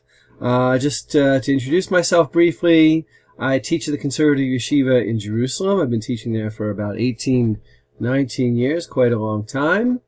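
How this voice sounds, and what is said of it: American accent. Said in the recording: “my American accent, I'm originally from America, from the state of New Jersey”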